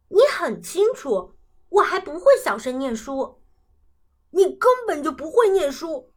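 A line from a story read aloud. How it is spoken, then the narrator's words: Raised voice shouting. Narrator (Chinese): 跳跳提高嗓门喊道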